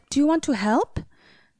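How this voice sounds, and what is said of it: Put-on Swedish accent. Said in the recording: “That was my Swedish accent. ... Beautiful.”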